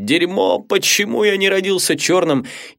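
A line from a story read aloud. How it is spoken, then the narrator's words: Sobbing. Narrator (Russian): и начинал рыдать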